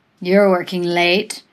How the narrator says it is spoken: slurred

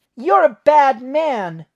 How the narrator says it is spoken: Nate yelled up at Moriarty

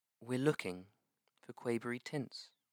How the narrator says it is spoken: the page said softly

